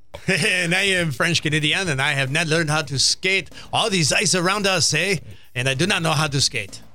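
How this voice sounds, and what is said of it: Put-on French Canadian accent. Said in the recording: “That was a French Canadian accent... Authentic as well.”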